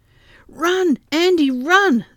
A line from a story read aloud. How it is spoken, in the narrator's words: they shouted back at him